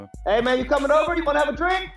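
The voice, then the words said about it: Shouting. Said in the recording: “You're screaming at your neighbor.”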